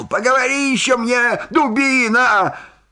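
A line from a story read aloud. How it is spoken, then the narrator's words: Angry shout. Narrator (Russian): Фельдшер вспылил и крикнул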